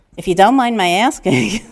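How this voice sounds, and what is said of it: Heavy New York accent. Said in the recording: “which is a very heavy New York accent, was more like”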